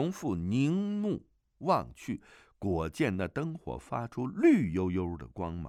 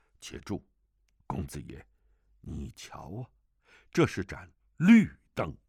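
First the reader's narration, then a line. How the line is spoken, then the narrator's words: Low, sharp command. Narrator (Chinese): 邓百川低声喝道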